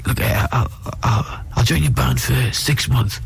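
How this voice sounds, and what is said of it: Imitates another person's voice. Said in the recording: “we don't know if that's a dead-on impression or that's a really good impression.”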